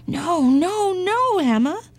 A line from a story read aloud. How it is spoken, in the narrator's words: cried the farmer